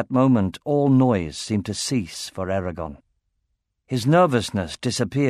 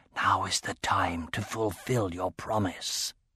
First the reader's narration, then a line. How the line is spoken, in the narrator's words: Sabre whispering